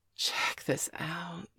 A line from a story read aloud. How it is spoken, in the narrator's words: she whispered